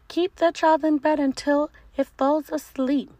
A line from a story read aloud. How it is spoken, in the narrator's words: The orange monster squeaked